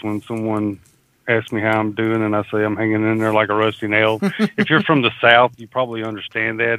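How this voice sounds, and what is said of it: Southern US accent, Mississippi. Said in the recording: “if you can't tell by my accent ... I'm in Mississippi”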